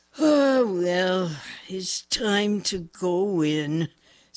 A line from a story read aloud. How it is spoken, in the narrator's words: said Sport in a tired voice